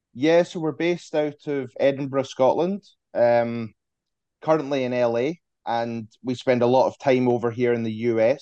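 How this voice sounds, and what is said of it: Scottish accent. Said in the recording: “always great to hear a Scottish accent”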